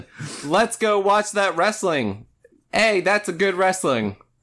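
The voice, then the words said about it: Imitates another person's voice. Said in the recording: “Here's my impression ... you sound like my dad”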